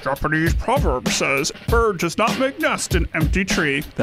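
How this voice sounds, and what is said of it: Poor imitation of another person's voice. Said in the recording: “That was the worst Sean Connery impression”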